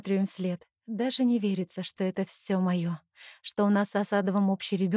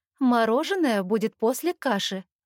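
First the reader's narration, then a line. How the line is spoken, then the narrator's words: Stern. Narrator (Russian): строго говорю я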